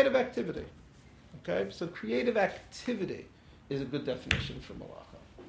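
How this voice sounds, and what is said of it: Usual voice. Nothing is said of it.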